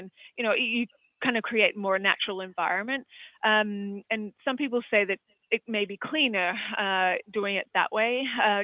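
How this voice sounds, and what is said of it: Australian accent. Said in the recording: “as you can probably tell from my accent, I'm from Australia”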